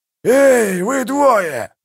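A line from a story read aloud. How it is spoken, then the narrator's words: Growled. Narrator (Russian): зарычал Калор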